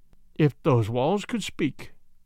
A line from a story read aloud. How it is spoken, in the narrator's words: I murmured